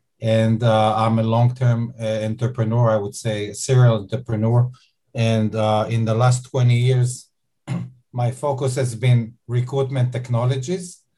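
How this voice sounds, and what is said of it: Israeli-accented English. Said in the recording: “I'm Israeli, as you may be able to hear from my accent.”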